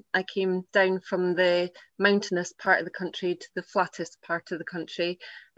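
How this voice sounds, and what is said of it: Non-American accent. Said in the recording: “I love your accent”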